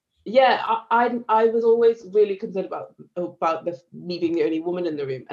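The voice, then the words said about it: Northern English accent, slightly southern. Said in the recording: “I'm northern ... I had this accent, which okay. has slowly become a little bit more southern. You can probably hear it”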